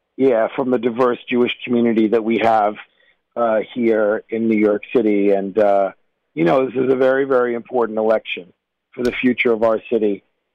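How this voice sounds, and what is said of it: Hoarse, strained voice. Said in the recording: “I'm losing my voice. You can probably hear it. I've been out campaigning.”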